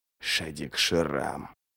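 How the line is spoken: Whispering. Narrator (Russian): прошептал Ничто

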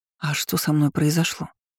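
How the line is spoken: Breathless exhale. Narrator (Russian): выдохнула

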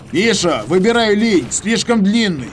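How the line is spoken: Shouted. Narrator (Russian): крикнул я

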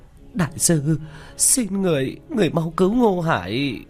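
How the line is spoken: Sobbing plea. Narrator (Vietnamese): Vu Mộng ... thút thít

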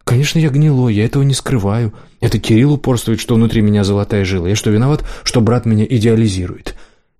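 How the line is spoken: Conciliatory, suppressed anger. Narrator (Russian): Демьян говорил примирительным тоном, хотя внутри все горело

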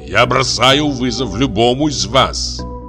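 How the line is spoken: Roared. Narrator (Russian): взревел он

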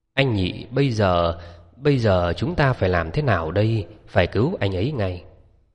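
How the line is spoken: Frightened trembling stammer. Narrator (Vietnamese): Dương Hoài Ngọc sợ đến nỗi giọng nói cũng run run, lắp bắp hỏi

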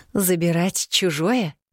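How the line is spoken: Through gritted teeth. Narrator (Russian): сквозь зубы переспросила я

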